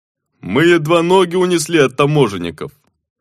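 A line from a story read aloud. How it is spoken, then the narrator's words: Booming drone. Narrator (Russian): прогудел Руи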